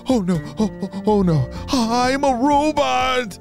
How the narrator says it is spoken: shouted Harry

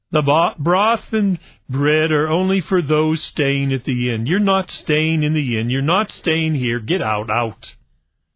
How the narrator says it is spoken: The woman ... called out

